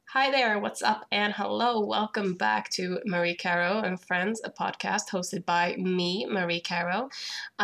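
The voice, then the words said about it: Sick, rough-sounding voice. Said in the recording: “my voice is horrible because I've been sick for about a week”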